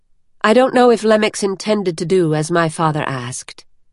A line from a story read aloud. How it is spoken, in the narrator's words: Vivenna said, keeping her voice even